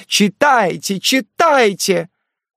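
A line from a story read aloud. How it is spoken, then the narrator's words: Crowd shouting in unison. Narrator (Russian): все депутаты закричали в один голос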